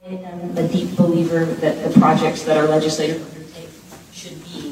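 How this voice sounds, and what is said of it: Usual voice. Nothing is said of it.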